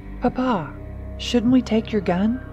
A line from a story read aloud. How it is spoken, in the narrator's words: Teresa asked, her voice tinged with concern